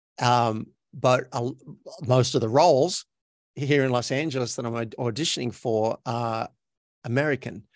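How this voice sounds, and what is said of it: Australian accent. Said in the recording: “I'm from Australia, so my native accent sounds like this. This is me talking with an Australian accent.”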